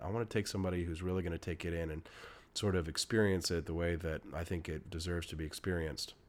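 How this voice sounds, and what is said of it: Sick, unwell-sounding voice. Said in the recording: “my voice is sick”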